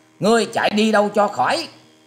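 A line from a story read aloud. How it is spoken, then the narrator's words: Loud urgent shout. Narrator (Vietnamese): Cô gái áo tía vì sợ lão ta có đủ thì giờ ném loại ám khí tuyệt độc ấy về phía mình, nên quát to lên rằng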